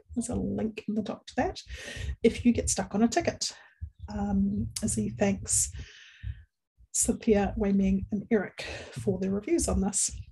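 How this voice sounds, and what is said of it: Speaks with a noticeable accent. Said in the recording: “my accent mangles our geographic short names”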